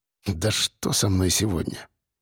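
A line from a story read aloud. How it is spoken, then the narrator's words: Muttered. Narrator (Russian): пробормотал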